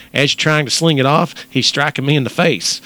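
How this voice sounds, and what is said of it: Put-on Texas accent. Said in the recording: “in your best Texas accent”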